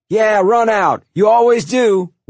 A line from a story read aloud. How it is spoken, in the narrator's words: Walter yelled at George